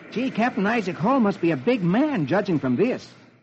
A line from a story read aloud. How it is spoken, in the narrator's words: he exclaims